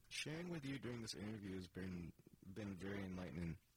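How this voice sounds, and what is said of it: Southern US accent. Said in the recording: “My southern's coming out. ... That did sound southern.”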